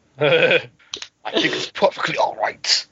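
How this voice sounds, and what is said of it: Sean Connery impression. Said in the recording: “Sean Connery had to step in for the chivalry discussion.”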